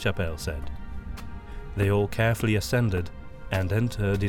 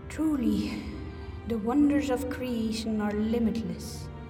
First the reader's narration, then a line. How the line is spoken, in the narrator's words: breathed Blessed Salenheim